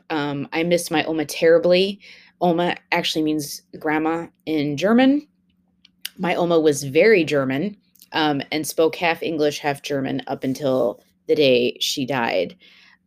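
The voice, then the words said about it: Sad, pained emotional voice. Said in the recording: “as you can hear from my voice, it is still a day that is painful for me”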